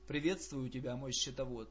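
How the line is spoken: Calm. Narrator (Russian): произнес Закхей спокойно

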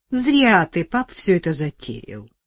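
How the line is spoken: Sighing, gloomy. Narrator (Russian): вздыхала, мрачно предрекала

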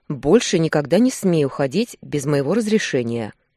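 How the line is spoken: Deep bass voice. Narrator (Russian): пробасил Руслан

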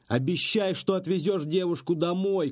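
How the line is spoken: Shouting from the door. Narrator (Russian): крикнул еще у дверей Рэпс

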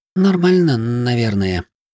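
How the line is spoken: Uncertain. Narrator (Russian): неуверенно ответила она

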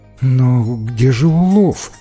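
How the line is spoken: Sad question. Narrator (Russian): грустно спросила она

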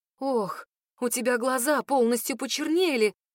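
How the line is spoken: Frightened whisper. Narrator (Russian): шепчет она испуганно

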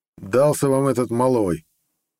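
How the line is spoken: Irritated snort. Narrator (Russian): раздраженно фыркнул шеф

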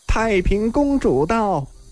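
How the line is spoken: Raised voice from outside. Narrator (Chinese): 外面有人扬声叫道

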